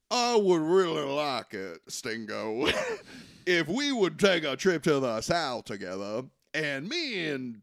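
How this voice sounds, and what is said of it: Put-on Southern accent. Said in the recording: “dressed like Southern gentlemen... he is doing an accent. is doing an accent.”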